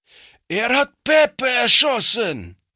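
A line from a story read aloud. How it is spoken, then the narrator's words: Shouted by a ruffian. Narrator (German): schrie einer der Strolche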